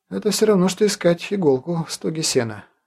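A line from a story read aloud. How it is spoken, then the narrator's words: Sighing. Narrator (Russian): вздохнул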